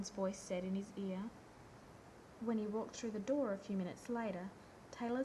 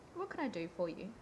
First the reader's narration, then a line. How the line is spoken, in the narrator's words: Lorne asked cheerfully